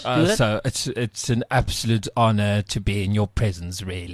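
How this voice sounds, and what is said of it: Tipsy, slurred British Boris Johnson impression. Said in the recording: “A slightly British accent, but slightly tipsy ... you just slur a bit ... like that Boris person ... like Boris Johnson ... You sound like a gay cockney.”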